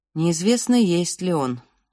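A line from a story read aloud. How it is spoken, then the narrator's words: Gloomy reply. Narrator (Russian): мрачно ответил отец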